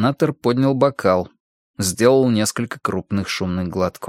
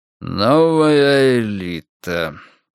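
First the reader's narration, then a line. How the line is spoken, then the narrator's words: Grumbling. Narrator (Russian): пробурчал он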